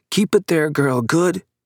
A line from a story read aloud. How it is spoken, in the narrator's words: Father was shouting